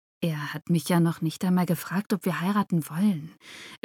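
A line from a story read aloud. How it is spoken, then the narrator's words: Quiet objection. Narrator (German): widersprach sie leise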